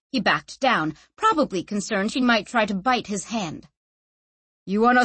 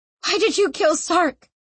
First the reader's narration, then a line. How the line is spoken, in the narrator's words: Sanchia gasped